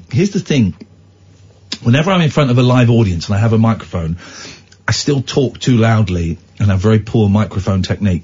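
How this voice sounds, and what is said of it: Hoarse, fading voice. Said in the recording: “I'm losing my voice a bit. I had a cold that didn't quite take. ... I can feel my voice going”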